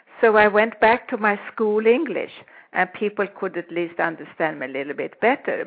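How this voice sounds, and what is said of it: Speaks with a noticeable foreign accent. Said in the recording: “they still know who I am because of my accent”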